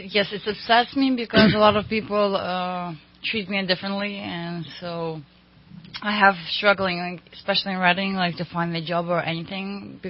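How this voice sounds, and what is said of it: Speaks English with a foreign accent. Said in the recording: “the first thing what they hear is my accent.”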